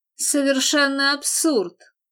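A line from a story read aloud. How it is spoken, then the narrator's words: Irritated retort. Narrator (Russian): раздраженно бросил Телбот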